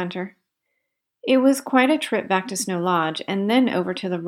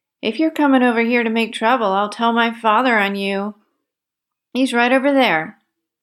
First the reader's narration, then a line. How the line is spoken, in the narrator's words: The bully seemed uneasy at the sight of Harry and Bert, and called out